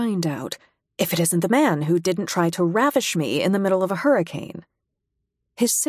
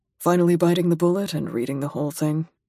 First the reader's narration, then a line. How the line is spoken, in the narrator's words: he says dryly